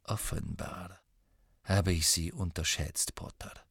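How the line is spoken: Said softly. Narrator (German): sagte leise

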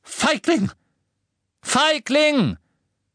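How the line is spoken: Shouting. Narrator (German): McGonagall schrie

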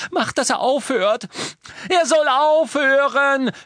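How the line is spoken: Scream. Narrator (German): schrie Hermine

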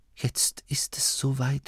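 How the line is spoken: Inner whisper. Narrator (German): flüsterte es in Masklin

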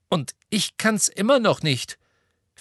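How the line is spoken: Angry. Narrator (German): fügte sie wütend hinzu

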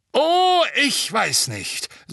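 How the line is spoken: Booming voice. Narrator (German): sagte Madame Bones mit ihrer dröhnenden Stimme

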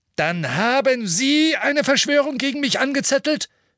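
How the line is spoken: Called out. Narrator (German): rief

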